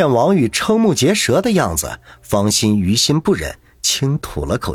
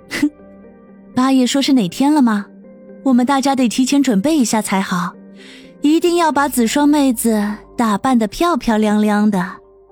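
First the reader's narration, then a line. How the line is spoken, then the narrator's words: Cheerful, giggling. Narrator (Chinese): 舒心笑嘻嘻的说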